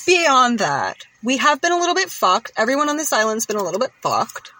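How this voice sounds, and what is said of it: Island accent. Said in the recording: “my island accent”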